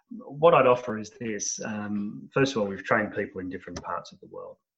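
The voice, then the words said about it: Australian accent. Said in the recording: “Obviously, from my accent, most of my people are in Australia”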